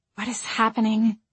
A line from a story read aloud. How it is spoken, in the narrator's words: Margot whispered